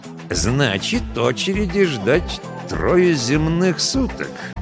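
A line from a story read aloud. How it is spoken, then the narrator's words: Ominous tone. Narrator (Russian): нехорошим голосом уточнил он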